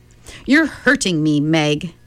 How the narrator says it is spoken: Charles said sharply

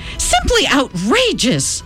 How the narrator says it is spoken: shouted Mom

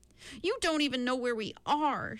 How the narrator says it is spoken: she cried out at her father

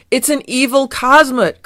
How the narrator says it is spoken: cried Fieldgar

